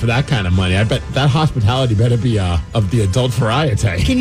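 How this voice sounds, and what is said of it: Usual voice. Nothing is said of it.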